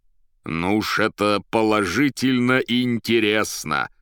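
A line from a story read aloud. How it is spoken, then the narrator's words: Shaking with laughter. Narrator (Russian): трясясь от хохота, проговорил профессор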